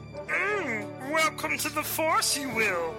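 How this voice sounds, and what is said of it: Star Wars character voice impression. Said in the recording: “Star Wars impersonators. We can do all your favorite voices.”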